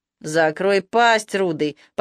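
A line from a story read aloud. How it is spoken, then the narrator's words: Hateful growl. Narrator (Russian): почти с ненавистью прорычал майор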